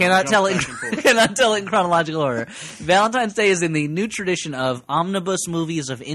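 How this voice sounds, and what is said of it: Usual voice. Nothing is said of it.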